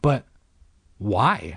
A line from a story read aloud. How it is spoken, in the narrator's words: I stammered